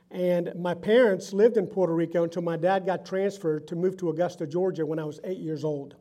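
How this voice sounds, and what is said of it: Puerto Rican accent. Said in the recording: “I was born in San Juan, Puerto Rico. Notice the accent.”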